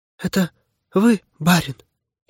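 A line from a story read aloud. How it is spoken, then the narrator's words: Barely audible. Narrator (Russian): едва слышно заговорила она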